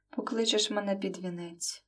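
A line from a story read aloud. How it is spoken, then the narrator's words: Sad. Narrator (Ukrainian): закінчила сумно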